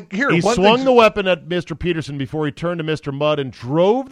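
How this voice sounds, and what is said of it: Usual voice. Nothing is said of it.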